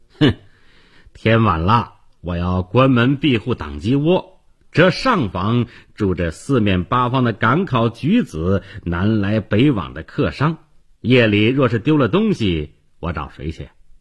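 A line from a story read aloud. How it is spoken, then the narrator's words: Shopkeeper's cold sneer. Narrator (Chinese): 店主冷笑一声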